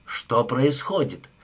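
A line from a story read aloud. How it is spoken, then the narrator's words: Growled. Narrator (Russian): прорычал Такс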